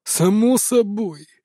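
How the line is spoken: Snort. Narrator (Russian): хмыкнул тот

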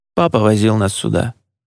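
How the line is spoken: Quiet, from nearby. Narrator (Russian): тихо сказал Джулиан откуда-то рядом

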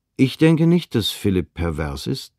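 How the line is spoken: Plain. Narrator (German): sagte ich

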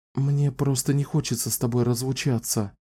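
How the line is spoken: Whisper. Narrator (Russian): прошептала Кэлен

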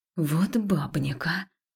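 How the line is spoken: Hiss. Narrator (Russian): прошипела

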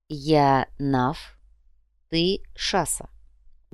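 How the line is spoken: Soft. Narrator (Russian): мягко сказал Ярго

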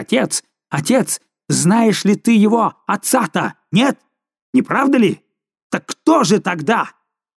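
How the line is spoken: Furious impatient shout. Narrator (Russian): Жульен, видимо, теряя терпение, закричал в бешенстве

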